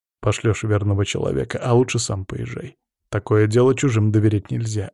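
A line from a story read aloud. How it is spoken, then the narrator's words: Calm explaining. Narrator (Russian): объясняю задачу спокойным тоном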